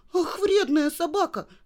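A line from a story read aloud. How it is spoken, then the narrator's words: Shout. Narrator (Russian): закричала Женя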